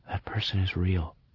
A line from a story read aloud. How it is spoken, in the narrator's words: I said softly, almost in a whisper, as if I were telling him a secret that could be overheard